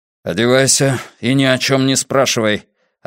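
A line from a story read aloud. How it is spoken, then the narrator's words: Tense, frightening voice. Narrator (Russian): обронил он столь напряженным голосом, что я испугался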